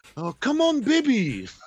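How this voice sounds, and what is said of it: Poor put-on English accent. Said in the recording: “I'm sorry for my terrible accent ... I love when the English pops out”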